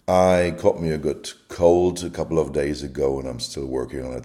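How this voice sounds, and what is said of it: Rough, sore, sniffly voice. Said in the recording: “my voice is a little rough, sore, not the way it is usually ... if I'm coughing, if it's a little rough here, if I'm sniffing”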